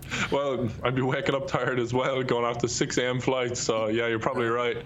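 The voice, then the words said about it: Speaks with a noticeable accent. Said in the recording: “plus with your accent. ... With your accent, Americans ... Just assume you're drunk.”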